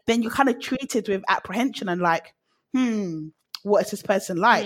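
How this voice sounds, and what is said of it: British accent. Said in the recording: “unless they hear my accent first ... they leave British people alone”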